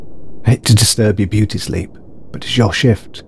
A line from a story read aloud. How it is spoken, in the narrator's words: he said